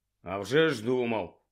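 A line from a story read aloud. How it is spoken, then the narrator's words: Grumbling. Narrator (Ukrainian): буркнув Гаррі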